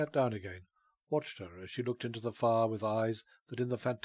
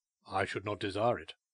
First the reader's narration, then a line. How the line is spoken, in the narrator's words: he replied coldly